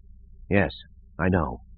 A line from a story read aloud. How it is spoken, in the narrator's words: Ganteris muttered to himself